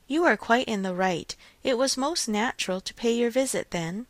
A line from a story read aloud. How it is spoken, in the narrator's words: Forcing herself to speak, therefore, in the hope of putting it by, she calmly said